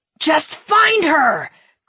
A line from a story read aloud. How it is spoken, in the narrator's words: Gredek screamed in frustration